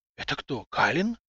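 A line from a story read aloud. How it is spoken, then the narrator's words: Crowd whispering. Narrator (Russian): зашептался народ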